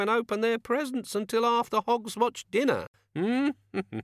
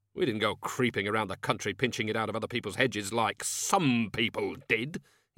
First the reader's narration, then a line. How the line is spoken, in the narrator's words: he snapped